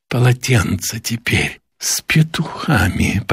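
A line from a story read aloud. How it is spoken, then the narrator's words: Near moan. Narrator (Russian): почти простонала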